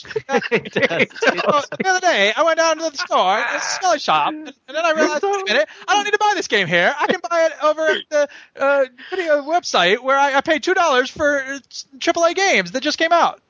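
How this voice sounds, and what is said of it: Comic impression like Terrence and Philip. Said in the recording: “impression of Stuke sounds like Terrence and Philip, so from South Park ... Do your impression on me”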